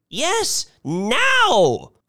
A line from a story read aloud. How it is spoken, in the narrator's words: cried Mrs